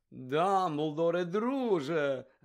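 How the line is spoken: Joyful. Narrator (Ukrainian): радісно промовив він

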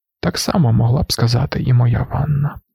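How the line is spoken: Muttering. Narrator (Ukrainian): пробурмотів Юе

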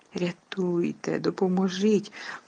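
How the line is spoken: Desperate whisper. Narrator (Ukrainian): увіччяї шепотіла Герміона

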